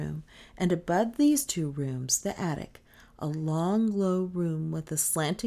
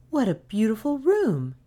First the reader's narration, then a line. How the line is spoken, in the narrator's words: exclaimed Nan